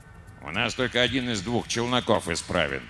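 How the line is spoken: Grumbling mutter. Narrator (Russian): пробурчал инженер Ри

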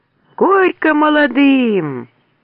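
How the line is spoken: Loud crowd shouting. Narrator (Russian): со всех сторон так громко заорали

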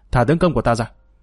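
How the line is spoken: Cold loud shout. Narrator (Vietnamese): lạnh lùng quát lớn

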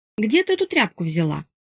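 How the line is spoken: Scornful snort. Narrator (Russian): скривилась я фыркнула

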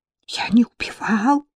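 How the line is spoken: Deafening reptilian whisper. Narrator (Russian): шепчет рептилия Кристиан, распялив неожиданно ставший безгубым рот, и этот шепот оглушает дарлинг почище любого истошного вопля

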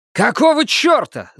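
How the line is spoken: Yelled. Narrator (Russian): завопил он

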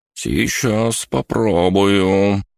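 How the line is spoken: Timid drawl. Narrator (Russian): боязливо протянул

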